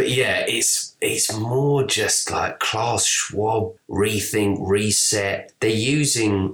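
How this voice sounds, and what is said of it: Usual voice. Nothing is said of it.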